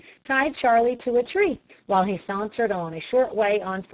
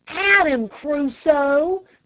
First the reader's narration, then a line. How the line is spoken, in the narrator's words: cried Dick